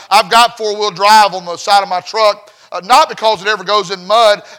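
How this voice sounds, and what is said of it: Rural Southern American accent. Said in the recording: “You probably listen to my accent and say, "That boy right there is a redneck hillbilly to the core."”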